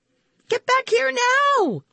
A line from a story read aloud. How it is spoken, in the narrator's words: I yelled